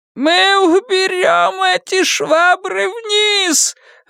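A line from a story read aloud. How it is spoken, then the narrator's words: Mother shouting. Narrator (Russian): выкрикнула его мать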